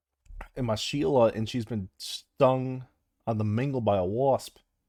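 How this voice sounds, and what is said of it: Attempted Australian accent. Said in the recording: “Can you do Australian? ... I can't do an Australian accent.”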